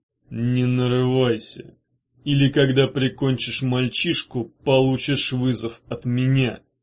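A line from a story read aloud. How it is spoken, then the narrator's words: Warning through gritted teeth. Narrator (Russian): предупредил сквозь зубы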